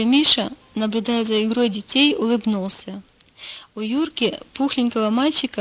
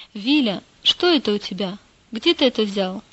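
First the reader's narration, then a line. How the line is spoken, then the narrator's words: Stern question. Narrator (Russian): спросила строго мама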